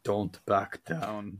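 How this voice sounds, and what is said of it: Poor Scottish accent imitating Limmy. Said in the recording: “stop doing your accent. Yeah, that Scottish bloke is Limmy. And your Scottish accent is one of your worst”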